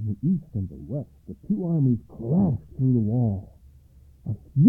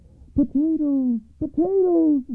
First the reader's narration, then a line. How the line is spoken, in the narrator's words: the soldiers began to shout